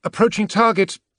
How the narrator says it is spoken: the Auspex officer called out

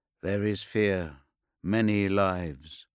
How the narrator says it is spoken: he murmured to his brothers in a strange, resonant undertone, as if he were speaking from beneath the ocean

